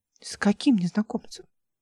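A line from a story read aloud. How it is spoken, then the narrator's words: Plain. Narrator (Russian): спросила Ольга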